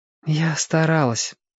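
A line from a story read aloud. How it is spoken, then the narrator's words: Sighing. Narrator (Russian): вздохнула Белка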